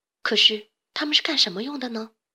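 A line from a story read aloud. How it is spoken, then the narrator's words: Plain. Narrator (Chinese): 小胖问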